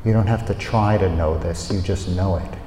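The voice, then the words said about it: Male North American accent. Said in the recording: “the voice of a male, the voice of someone from North America by the accent”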